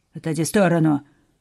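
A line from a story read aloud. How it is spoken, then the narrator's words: Bark. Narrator (Russian): рявкнул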